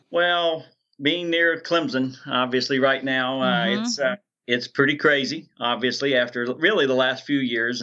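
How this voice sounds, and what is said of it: Southern American accent. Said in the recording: “Greenville, South Carolina. ... any accent you hear is very real after 57 years”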